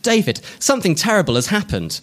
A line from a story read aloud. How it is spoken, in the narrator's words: Harriet said, her voice panicked and afraid